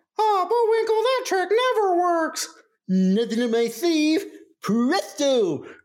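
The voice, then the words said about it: Cartoon squirrel character voice. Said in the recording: “I would call them Rocky and Bo ... doing that voice”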